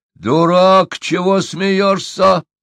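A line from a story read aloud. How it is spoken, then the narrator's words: Yelling. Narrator (Russian): заорал Падек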